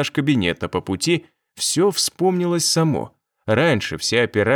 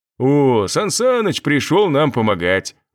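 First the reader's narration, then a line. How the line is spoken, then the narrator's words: Deep bass voice. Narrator (Russian): пробасил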